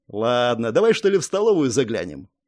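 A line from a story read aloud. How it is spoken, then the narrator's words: Snide smirking reply. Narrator (Russian): Дирк ехидно усмехнулся и ответил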